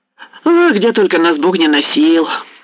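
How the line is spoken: Cheerful chatty merchant. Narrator (Russian): заговорил весело словоохотливый торговец

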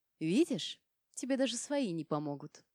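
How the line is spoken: Gentle whisper in ear. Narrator (Russian): ласково прошептала я в ухо

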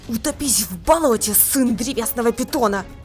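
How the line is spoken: Furious hiss. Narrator (Russian): яростно прошипела Изабо

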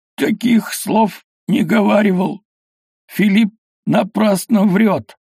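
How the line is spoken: Strained, forced out. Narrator (Russian): выдавил из горла Шокловитый

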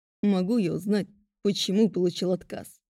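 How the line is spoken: Venomous and cold. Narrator (Russian): Ядовито и холодно произнес он

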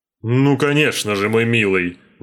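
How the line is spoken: Exclaimed. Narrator (Russian): воскликнул Смайк

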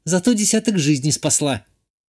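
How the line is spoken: Snapping. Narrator (Russian): огрызнулась Ишта

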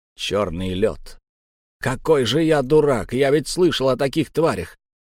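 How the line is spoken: Exclaimed. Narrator (Russian): воскликнул Три Гвоздя

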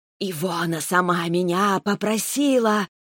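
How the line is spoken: Snake-like hiss. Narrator (Russian): Раздалось змеиное шипение

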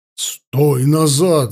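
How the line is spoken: Shouting. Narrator (Russian): закричал Ауранг

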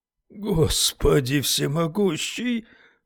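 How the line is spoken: Breathed out. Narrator (Russian): выдохнул Уитни

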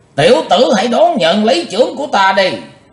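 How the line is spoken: Thunderous shout. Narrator (Vietnamese): lão đại ác ma quát như sấm nổ

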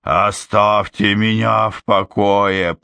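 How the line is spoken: Growling. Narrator (Russian): прорычала я

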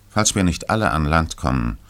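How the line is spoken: Plain. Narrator (German): sagte der Kapitän

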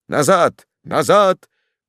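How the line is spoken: Shouting. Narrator (Russian): крикнул лорд Фоксгем

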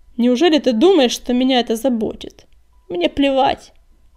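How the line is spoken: Contemptuous creature's snort. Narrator (Russian): презрительно фыркнул хвостолом

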